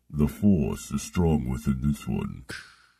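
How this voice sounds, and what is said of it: Darth Vader character voice. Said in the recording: “What are you, Darth Vader? ... that's a good impression.”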